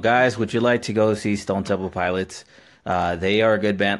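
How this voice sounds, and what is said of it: Very monotone flat delivery. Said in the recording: “The secret to doing a Jose is you got it. Everything has to be very monotone.”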